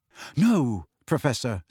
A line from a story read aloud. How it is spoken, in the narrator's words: said Harry hastily